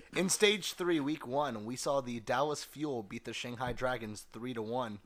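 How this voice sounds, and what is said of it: Serious, unexcited flat voice. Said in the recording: “Don't sound so excited, for God's sake ... It's a serious voice ... it's my serious voice.”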